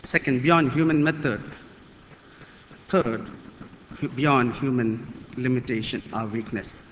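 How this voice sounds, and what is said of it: Non-native English accent. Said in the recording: “my mother tongue is not English, please bear with me for my accent”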